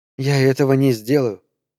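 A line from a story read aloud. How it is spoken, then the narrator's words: Quiet. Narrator (Russian): тихо сказала Мария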